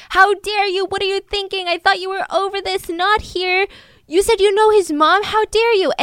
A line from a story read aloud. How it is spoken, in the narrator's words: grandma … starts yelling